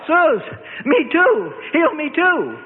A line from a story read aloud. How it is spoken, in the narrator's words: they shouted out their infirmities